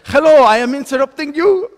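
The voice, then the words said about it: Imitated Polish accent. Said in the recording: “this is my Polish accent, but she says in a Polish accent ... That's not Polish.”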